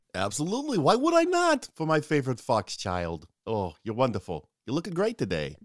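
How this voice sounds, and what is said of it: Playful put-on character voice. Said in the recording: “the sort of the fun, like, character voice that you're doing”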